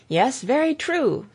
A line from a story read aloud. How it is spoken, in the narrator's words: cried Frank